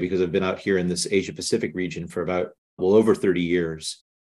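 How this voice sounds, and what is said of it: North American accent. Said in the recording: “as you can tell by my accent, I'm from North America originally”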